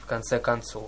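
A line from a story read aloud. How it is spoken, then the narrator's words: Muttered. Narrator (Russian): пробормотал Тантал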